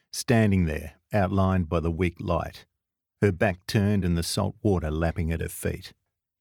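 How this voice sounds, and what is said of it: Australian accent. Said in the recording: “listeners have to tune their ears for an Australian accent ... you have to get your head around the accent”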